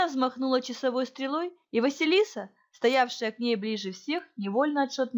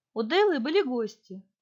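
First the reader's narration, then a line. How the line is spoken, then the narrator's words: Calm girl's reply. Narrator (Russian): отозвалась девочка, как спокойно прозвучал ее голос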